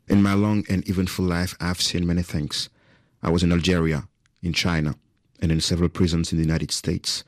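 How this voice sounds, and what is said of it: Convincing native-sounding English accent. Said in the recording (French): “Vous avez pris des cours avec Morgan Freeman ? ... Quel accent ! Ça, pour le coup, vous n'êtes pas français, vous avez un super accent.”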